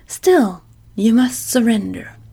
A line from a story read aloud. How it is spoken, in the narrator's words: exclaimed fiercely